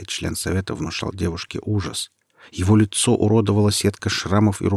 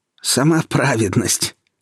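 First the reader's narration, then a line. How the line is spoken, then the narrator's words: Loud guffawing. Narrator (Russian): расхохотался третий член совета, напоминавший видом старого пса с обвисшими щеками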